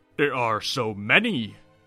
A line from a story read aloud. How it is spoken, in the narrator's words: barked